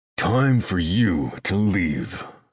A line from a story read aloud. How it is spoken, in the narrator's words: I growl